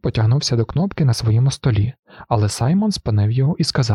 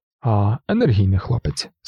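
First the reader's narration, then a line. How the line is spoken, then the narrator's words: Cheerful. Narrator (Ukrainian): сказав містер Тейт, весело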